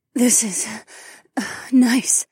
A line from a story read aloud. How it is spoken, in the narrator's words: Fila gasped